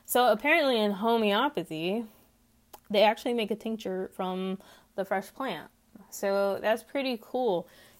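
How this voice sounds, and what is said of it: Twangy Texas accent. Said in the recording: “I live in Texas. If you cannot tell by my twangy accent that apparently some people hear, but I don't hear it.”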